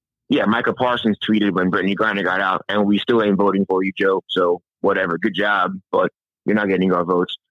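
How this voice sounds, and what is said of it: West Virginia-sounding American accent. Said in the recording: “You sound exactly like my friend Travis Bajent. You sound like a West Virginia white guy.”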